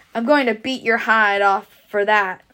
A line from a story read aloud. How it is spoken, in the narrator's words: cried Stuart fiercely